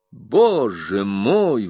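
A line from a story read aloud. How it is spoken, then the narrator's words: Exclamation. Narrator (Russian): воскликнул он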